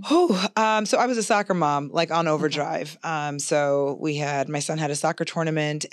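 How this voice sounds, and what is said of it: Hoarse, raspy voice. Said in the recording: “my voice is fighting for its life ... Fighting a cold, fighting a raspy voice”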